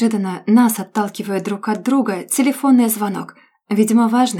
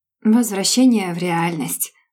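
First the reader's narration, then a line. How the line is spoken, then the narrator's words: Sighing, trying not to sound sad. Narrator (Russian): вздыхаю я, стараясь, чтобы это не прозвучало слишком грустно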